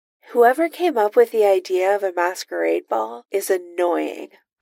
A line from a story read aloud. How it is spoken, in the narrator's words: Iron Man sighs